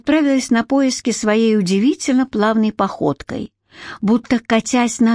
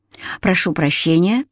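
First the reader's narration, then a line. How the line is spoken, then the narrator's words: Muttering. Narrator (Russian): Ариадна пробормотала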